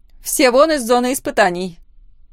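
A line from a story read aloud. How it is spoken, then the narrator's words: Loud command. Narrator (Russian): громко приказала Лора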